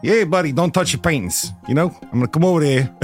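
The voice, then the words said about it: Put-on local security-guard accent. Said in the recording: “a very similar accent to one another. They had, uh, was, uh, you know, a, what we call a local accent.”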